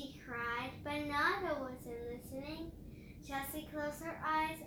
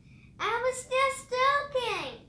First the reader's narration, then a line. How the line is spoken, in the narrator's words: he shouted